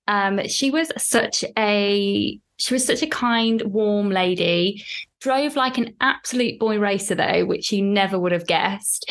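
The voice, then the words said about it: UK accent. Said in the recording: “I'm from, as you could probably tell with the accent”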